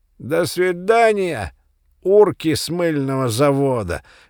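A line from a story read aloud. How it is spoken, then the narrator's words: Loud laughing farewell. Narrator (Russian): громко попрощался он и засмеялся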